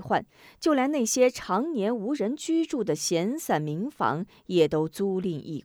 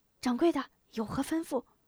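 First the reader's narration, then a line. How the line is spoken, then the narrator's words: Whisper. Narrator (Chinese): 店家悄声道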